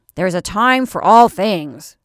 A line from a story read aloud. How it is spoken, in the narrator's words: growled the old woman